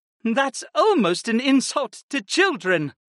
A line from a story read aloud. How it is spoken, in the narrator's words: Viopa giggled